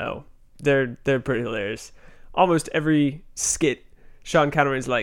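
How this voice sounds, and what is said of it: Usual voice. Nothing is said of it.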